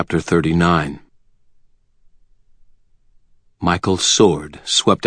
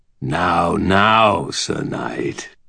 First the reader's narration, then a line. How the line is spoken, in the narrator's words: Nicodemus said, his voice almost a growl